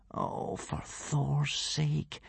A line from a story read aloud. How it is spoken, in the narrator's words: whispered Hiccup